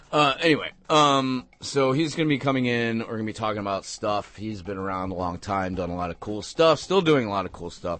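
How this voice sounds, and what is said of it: Voice a little messed up. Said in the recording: “My voice is a little messed up. I can't do those fa fa fa's quite right.”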